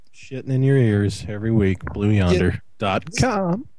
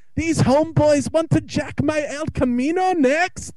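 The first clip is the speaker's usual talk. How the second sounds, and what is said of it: Crappy put-on accent. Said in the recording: “That was actually Staffa's. The homeboys jacking El Camino is straight Staffa... You brought the crappy accent”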